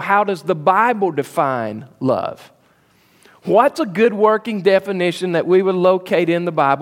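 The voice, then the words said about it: Southern American drawl. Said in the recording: “my southern drawl destroys that word”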